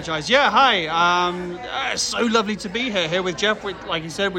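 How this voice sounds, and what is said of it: Usual voice. Nothing is said of it.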